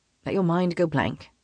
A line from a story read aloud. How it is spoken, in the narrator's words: he says softly